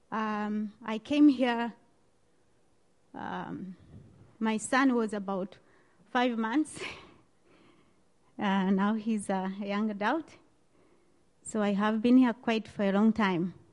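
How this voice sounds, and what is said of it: Strong non-native accent. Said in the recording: “some people have difficulty with my accent”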